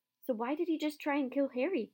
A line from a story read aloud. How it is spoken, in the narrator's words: cried Hermione